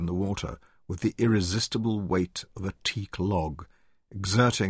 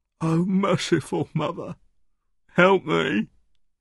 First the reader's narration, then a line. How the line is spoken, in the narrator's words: he moaned